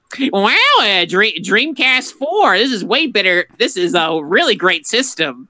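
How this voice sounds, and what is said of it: Spot-on Jaleel White impression. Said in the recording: “that Jaleel White impression, spot on, 10 out of 10.”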